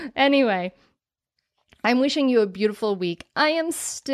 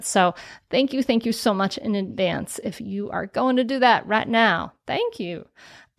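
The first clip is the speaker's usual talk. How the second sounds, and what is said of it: Put-on Southern accent. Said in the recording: “the Southern accent came from all of a sudden”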